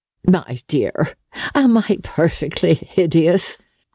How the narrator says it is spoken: she asked gaily

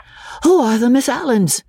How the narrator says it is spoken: Freddy panted

